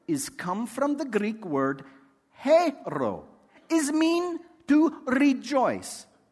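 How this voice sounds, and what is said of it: Put-on Greek accent. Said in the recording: “without a Greek accent”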